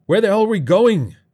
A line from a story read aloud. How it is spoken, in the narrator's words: Dave shouted